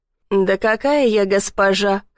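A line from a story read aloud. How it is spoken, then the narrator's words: Laughing. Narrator (Russian): хохотнула служанка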